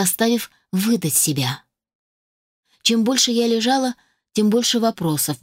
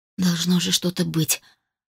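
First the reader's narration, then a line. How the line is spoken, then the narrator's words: Barely audible mutter. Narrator (Russian): пробормотала едва слышно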